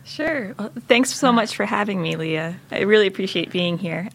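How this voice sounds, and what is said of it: North American, non-British accent. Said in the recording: “you can tell from my accent probably that I'm not British. You know, I grew up in the U.S. to Canadian parents.”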